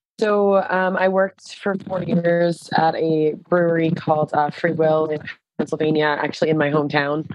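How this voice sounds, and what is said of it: American accent, Pennsylvania. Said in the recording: “you can hear from your accent that you're from Pennsylvania, or at least from America”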